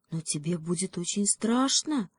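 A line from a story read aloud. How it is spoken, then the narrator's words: Terrified whisper, young fawn. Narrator (Russian): в ужасе прошептал олененок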